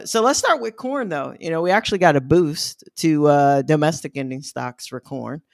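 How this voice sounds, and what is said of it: Midwestern American accent. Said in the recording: “that's when my Midwestern accent kicks in heavily”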